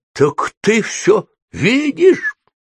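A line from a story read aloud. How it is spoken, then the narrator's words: Exclamation. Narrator (Russian): воскликнула она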